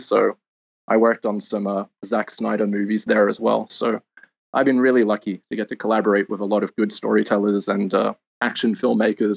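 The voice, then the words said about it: Australian accent. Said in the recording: “as some of your listeners may have guessed by my accent, I'm Australian, originally from Sydney”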